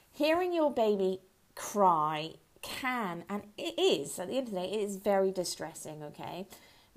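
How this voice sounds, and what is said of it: Hoarse, croaky throat. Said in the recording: “I've got a frog in my throat”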